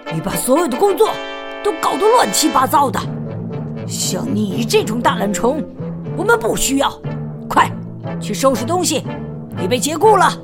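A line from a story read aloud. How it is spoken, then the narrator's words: Angry shout. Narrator (Chinese): 管理员气冲冲地朝大熊吼道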